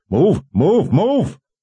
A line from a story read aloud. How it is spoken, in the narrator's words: shouting